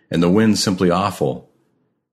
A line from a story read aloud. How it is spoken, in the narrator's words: he cried